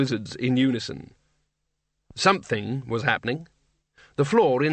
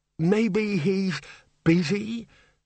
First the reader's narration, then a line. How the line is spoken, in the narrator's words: Eventually the bursar quavered